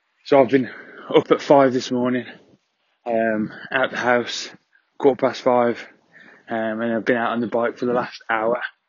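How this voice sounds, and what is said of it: Out of breath, breathless speech. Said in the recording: “I'm out of breath because I've just done a 5K bike ride”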